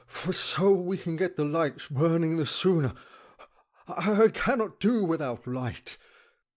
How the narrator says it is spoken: panted

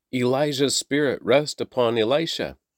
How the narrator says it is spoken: the group of prophets from Jericho they exclaimed

